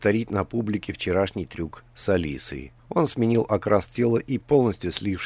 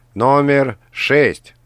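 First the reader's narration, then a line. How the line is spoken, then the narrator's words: Host's shouted announcement. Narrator (Russian): прокричал ведущий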